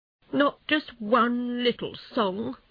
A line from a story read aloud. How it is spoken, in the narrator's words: asked Toad miserably